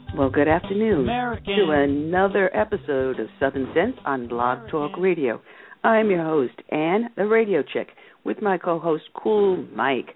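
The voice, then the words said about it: Husky voice. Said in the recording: “do I have a sexy voice today? ... I got myself a bad cold I've been fighting all week”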